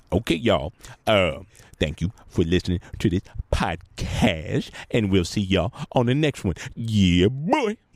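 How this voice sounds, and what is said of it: Imitates another person's voice. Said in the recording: “Does John Witherspoon want to say goodbye to anyone today? ... it always ruins my impression.”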